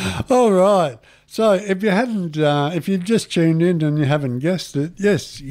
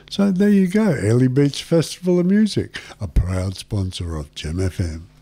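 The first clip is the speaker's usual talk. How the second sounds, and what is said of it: Polished radio announcer voice. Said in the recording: “How do you like my radio voice”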